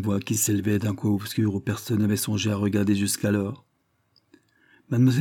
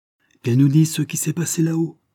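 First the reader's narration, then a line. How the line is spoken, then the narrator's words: Exclaimed. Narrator (French): s'écria-t-elle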